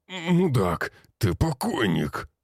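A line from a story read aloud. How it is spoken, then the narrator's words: Rasping in pain. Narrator (Russian): захрипел, корчась от боли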